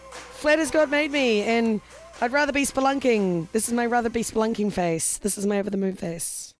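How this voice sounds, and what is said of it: Slightly husky, hoarse voice. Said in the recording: “I almost lost my voice yesterday, and I still sound a little husky today. ... your husky sounds sexy.”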